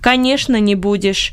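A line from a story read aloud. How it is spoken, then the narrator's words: Dry interjection. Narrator (Russian): сухо вставил Бенет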